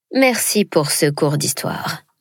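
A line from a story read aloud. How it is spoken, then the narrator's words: Mumbled. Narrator (French): marmonna quelqu'un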